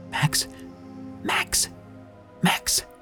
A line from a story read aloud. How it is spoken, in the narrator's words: I hissed in a panicked whisper